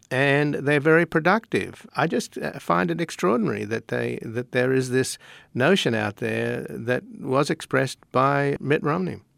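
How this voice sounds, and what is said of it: Australian accent. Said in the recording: “judging by your accent, I'm going to hazard a guess that you are not American-born ... I was born in Australia.”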